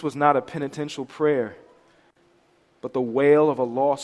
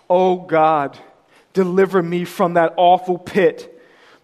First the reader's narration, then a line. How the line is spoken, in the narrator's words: The dying man cried out